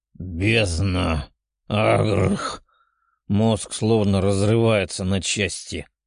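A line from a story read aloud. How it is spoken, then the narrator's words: Mental growl. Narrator (Russian): Мысленно прорычал парень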